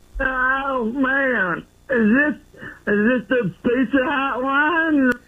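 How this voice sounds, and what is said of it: Impression of the host's voice. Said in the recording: “I guess that's how I sound ... that does sound exactly like you.”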